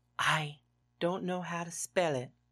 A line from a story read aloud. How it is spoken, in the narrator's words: he whispered